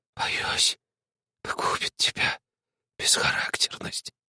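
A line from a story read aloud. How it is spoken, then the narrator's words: Hissing whisper. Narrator (Russian): сказал свистящим шепотом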